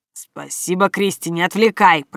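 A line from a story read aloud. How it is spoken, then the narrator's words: Muttered aloud. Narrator (Russian): пробормотал Вэйшэнг вслух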